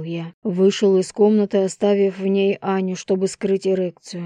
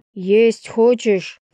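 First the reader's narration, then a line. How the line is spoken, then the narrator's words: Shout. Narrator (Russian): крикнул я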